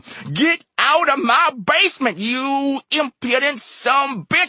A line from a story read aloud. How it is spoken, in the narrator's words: he screamed